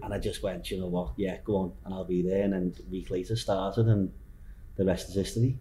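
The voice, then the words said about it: Broad Liverpool accent. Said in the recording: “the very broad accent that ... from Liverpool”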